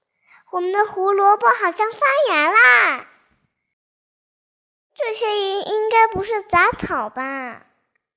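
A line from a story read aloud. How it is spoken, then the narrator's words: Shouting. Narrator (Chinese): 小白菜大喊道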